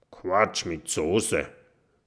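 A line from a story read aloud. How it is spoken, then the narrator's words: Grumbled. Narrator (German): brummt Eugen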